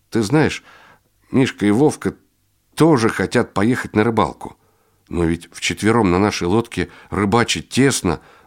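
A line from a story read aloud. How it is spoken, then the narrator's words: Bewildered younger boy. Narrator (Russian): растерянно произнес младший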